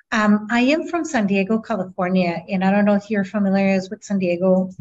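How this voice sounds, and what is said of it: Speaks with a slight accent. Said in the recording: “I noticed a little bit of an accent.”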